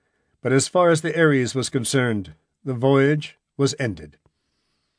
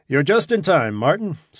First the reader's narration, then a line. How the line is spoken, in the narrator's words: said Norden cheerfully